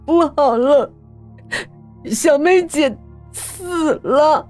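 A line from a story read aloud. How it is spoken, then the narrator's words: Tearful voice. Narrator (Chinese): 我带着哭腔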